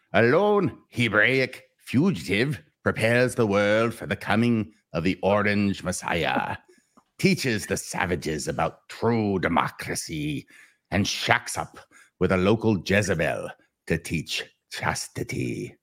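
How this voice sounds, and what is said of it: Imitates another person's voice. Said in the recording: “I'll try and read it like Billy Zane ... in my Billy Zane voice.”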